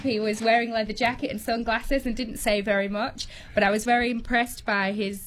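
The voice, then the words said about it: Yorkshire, northern English accent. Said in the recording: “you might tell from my accent, Cameron, I'm not from around here. I'm from the north of England, from Yorkshire”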